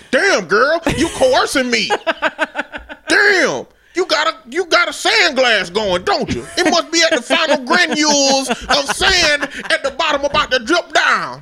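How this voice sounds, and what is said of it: Older man's uncle-like voice. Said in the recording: “a 50-year-old Uncle sounding dude ... gave him that voice”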